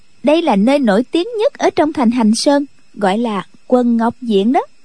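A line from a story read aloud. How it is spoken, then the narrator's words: Smiling speech. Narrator (Vietnamese): Khúc Phi Yên mỉm cười nói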